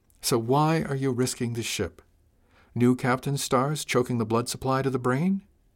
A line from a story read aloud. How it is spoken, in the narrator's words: She said it kindly